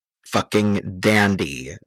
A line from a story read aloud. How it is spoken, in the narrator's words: the man growled